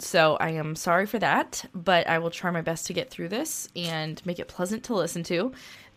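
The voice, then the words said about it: Slightly congested voice. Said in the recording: “my voice is a little off today because I have a little bit of a cold”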